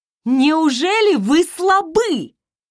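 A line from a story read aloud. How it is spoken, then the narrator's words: Shouting. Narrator (Russian): Закричала я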